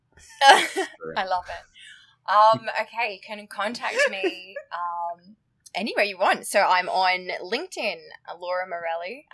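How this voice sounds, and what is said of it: Australian accent. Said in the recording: “my accent? Because Australia was voted very sexy for accents... I think it's such a shocking accent.”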